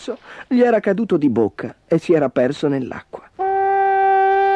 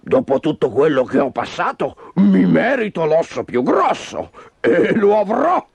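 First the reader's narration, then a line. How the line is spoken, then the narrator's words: Menacing growl. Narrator (Italian): in un ringhio minaccioso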